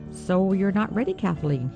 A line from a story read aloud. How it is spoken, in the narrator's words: he said